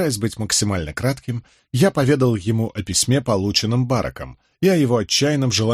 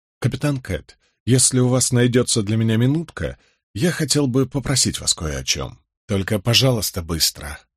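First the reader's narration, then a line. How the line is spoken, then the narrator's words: Sighing. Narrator (Russian): вздохнул Роберт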